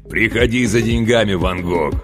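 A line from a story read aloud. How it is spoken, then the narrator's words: Joyful bass on phone. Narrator (Russian): радостно пробасил он в трубку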